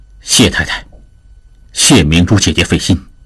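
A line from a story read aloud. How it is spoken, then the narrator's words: Low voice. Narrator (Chinese): 铁信石低声说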